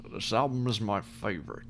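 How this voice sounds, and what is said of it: Sean Connery impression. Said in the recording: “good Sean Connery impression ... It was pretty good.”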